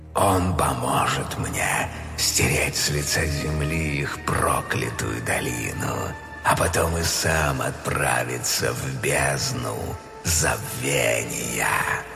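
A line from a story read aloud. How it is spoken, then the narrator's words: Menacing serpent's laughter. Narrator (Russian): змей грозно рассмеялся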